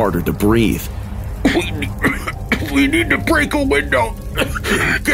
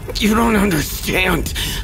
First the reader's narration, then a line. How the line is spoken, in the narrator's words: he gasped, the fight draining from him